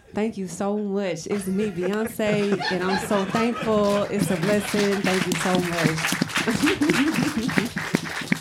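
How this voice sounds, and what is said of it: Imitates another person's voice. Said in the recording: “That was good... a very good impression.”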